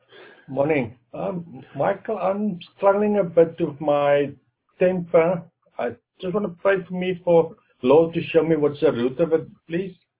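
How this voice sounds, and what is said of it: Strong accent, hard to understand. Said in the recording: “got an accent that I have trouble with.”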